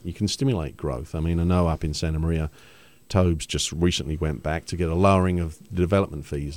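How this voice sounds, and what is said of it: London English accent. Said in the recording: “your accent. ... I'm from London originally.”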